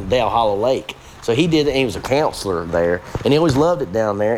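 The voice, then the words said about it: Rural Southern American accent. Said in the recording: “my hillbilly accent... and now I'm like thinking totally hillbillified”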